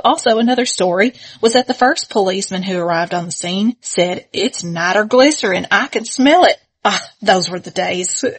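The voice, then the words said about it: Put-on persona accent reading aloud. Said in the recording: “God, I just love your accent right now. ... when we become Facebook people, we immediately do that persona”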